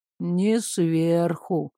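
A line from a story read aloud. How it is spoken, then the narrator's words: Drawling, werewolf. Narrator (Russian): протянул волколак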